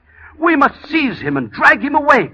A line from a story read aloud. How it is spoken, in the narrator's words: cried the abbot